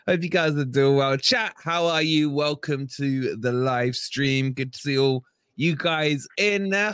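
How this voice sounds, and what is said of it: Hoarse, partly lost voice. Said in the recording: “my voice is a little gone from showering at the under 13s today”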